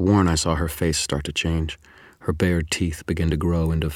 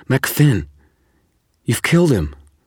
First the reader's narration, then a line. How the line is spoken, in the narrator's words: snarled